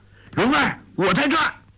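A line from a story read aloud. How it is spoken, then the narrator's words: Loud shout. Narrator (Chinese): 郭靖大叫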